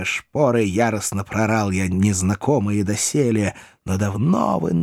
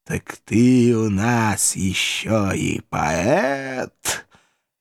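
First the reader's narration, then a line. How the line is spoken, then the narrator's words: Sarcastic hiss. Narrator (Russian): Язвительно морща губы прошипел император Франции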